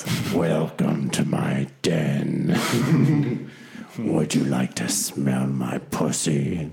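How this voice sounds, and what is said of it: Deep, throaty, seductive voice. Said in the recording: “So now it's all deep and throaty ... That's her sexy voice.”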